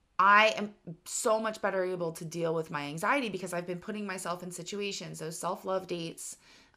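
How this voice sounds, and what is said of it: Strained, worn-out hoarse voice. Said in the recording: “I still don't have my full voice, and talking this much is like straining it more ... I was screaming and dancing for 4 days, so I'm sorry that my voice sounds this way”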